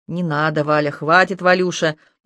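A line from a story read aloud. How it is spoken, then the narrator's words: Growling. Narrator (Russian): прорычала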